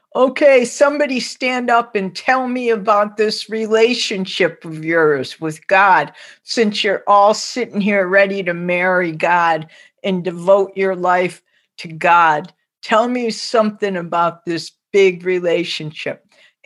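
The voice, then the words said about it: Strong Lithuanian accent imitation. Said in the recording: “He spoke with this very strong Lithuanian accent.”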